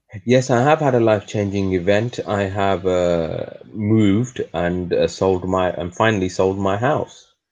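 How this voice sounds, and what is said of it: English accent. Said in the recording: “your actual English accent”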